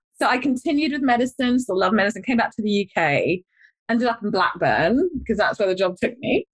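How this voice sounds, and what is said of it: London English accent. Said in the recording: “I'm a London girl, by the way. I don't need to tell my accent.”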